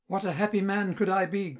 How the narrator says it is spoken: cried Melina

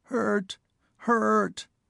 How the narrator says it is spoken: Tip coughed, a wrenching, rattling little sound, and whimpered

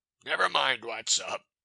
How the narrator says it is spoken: he answered gruffly

